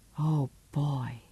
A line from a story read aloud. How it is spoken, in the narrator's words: she breathed, still deadly serious